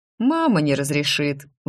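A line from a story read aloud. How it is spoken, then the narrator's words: Boy sighing. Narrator (Russian): вздохнул мальчик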